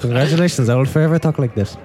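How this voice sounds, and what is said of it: Put-on exotic-sounding accent. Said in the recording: “I don't even know what the accent this is. ... It's just ... exotic.”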